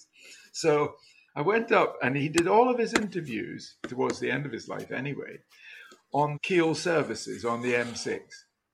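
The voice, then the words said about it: Scottish accent, from Dundee. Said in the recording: “you've got a Scottish accent. Which part of Scotland do you come from? I said, Dundee.”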